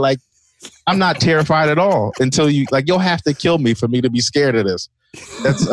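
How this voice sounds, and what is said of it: Usual voice. Nothing is said of it.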